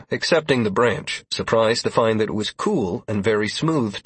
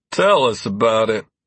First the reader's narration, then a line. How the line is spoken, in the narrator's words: Constantine grunted